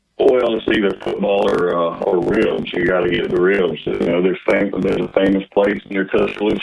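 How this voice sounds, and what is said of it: Southern US accent, Alabama. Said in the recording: “You got that southern accent from deep Alabama, right?”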